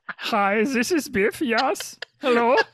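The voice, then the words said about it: Thick comedic German accent. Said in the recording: “a very thick Hogan's Heroes German accent”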